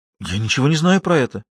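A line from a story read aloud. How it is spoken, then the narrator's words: Frightened. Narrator (Russian): испуганно произнесла она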